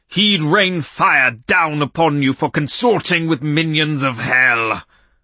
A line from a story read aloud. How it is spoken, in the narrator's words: Quivering impotently, and with flecks of spittle forming on his lips, he bellowed